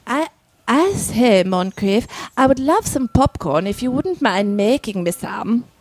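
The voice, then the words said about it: Put-on upper-class British accent. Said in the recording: “I was practicing an upper crusty British accent... Oh, that's really good... Did I sound upper crusty?... You did... Spot... On.”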